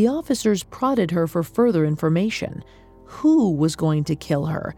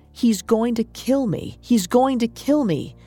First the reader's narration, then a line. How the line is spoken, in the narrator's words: she shouted